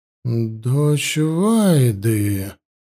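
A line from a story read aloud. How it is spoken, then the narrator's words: Wary drawl, priestess. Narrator (Russian): настороженно протянула жрица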